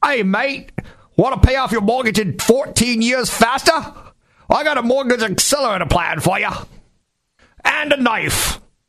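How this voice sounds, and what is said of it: Put-on Australian accent. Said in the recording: “it's an Australian guy ... The shrimp on the Barbie guy, he's got an accent.”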